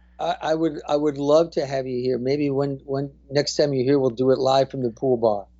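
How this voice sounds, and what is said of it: New Jersey accent. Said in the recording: “I knew I recognized that accent. You can't ever lose a Jersey accent.”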